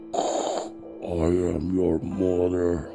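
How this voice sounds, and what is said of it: Poor Darth Vader-style voice. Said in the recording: “bad Darth Vader impersonation”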